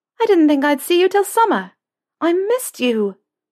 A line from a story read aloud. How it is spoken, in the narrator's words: Lucy exclaimed